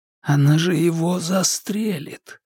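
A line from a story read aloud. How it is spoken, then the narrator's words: Muttered. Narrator (Russian): пробормотал рядом Стефан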